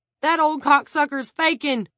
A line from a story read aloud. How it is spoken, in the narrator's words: Carson Struthers shouted